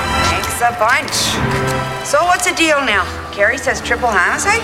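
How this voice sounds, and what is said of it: Minnesota accent, overly polite. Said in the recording (Czech): “Mluví tím specifickým minnesotským přízvukem. Přehnaně zdvořilá, nekonfliktní, takřka nevýrazná.”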